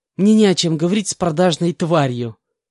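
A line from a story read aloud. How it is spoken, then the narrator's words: Laughing reply. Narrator (Russian): рассмеявшись, ответила Анна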